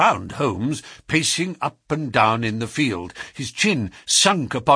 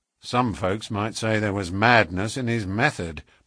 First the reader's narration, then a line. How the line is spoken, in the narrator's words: muttered the inspector